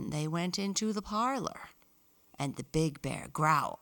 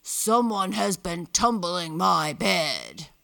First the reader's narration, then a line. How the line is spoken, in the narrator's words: the big bear growled